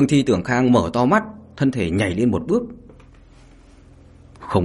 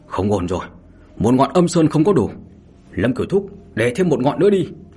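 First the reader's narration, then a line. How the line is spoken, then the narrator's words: Loud shout. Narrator (Vietnamese): Mao Tiểu Phương liền hét lớn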